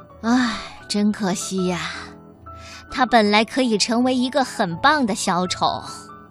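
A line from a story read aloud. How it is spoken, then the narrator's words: Sad sigh. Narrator (Chinese): 只有牛老师难过的叹气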